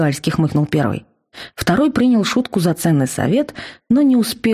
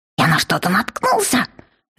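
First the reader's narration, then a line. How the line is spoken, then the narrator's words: Bewildered squeal. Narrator (Russian): взвизгнул он, неудоуменно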